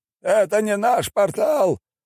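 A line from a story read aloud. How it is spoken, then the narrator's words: Shouting. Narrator (Russian): прокричал он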